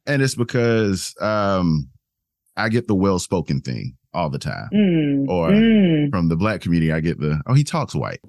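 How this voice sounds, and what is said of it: South Carolina Southern accent. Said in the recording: “as you can tell by my accent, I am from the South Carolina, born and raised”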